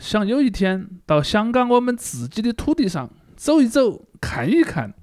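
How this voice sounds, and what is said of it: Deng Xiaoping impression, Guang'an accent. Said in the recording (Chinese): “邓小平 cos 大赛的一个经经常的参与者，当然我不能完全学他那个广安口音了”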